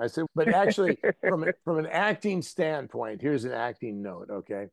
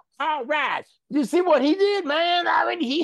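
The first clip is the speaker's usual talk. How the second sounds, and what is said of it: Heavy rural Southern US accent. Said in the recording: “accents are always driven by emotion ... he'll go way deep in the woods ... I love that accent”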